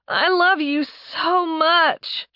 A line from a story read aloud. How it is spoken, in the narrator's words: she moaned